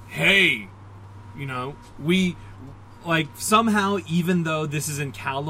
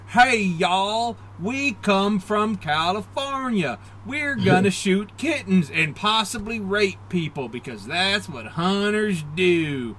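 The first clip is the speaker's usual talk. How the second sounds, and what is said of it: Intentionally bad Southern accent. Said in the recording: “they would have given them all bad Southern accents ... that was an intentionally bad Southern accent”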